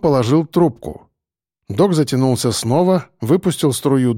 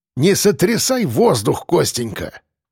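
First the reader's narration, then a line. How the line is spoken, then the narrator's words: Grumbling. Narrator (Russian): проворчал Ефим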